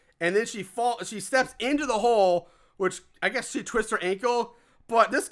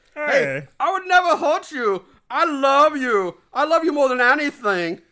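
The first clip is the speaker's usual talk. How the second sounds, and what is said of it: Poor put-on foreign accent. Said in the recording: “My accent sucks.”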